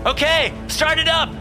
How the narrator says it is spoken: I shouted

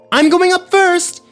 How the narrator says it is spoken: yelled Parker

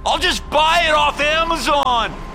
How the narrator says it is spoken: screaming over his shoulder

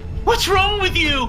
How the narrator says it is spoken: he screamed

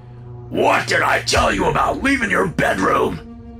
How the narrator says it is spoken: he screamed

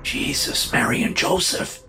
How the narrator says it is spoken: the man whispered

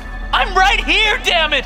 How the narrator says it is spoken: She screams

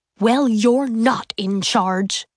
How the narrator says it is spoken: he told Lucille in a furious voice

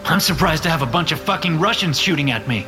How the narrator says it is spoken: I shout

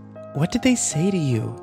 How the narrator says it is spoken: Kimber asked nervously

